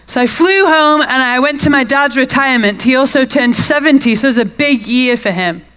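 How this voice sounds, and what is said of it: British accent. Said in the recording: “Originally, I'm from the UK. It might be a bit of a tell from my accent.”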